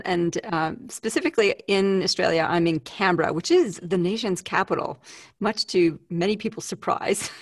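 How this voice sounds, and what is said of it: Funny Canadian accent. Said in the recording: “I'm a Canadian living in Australia, so I have a funny accent.”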